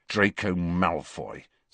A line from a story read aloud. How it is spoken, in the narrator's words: said Harry bitterly